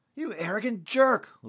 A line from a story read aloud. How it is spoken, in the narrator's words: yelled at the TV, not thinking about his sleeping family